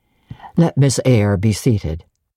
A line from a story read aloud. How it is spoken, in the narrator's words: said he, forced, stiff, impatient yet formal tone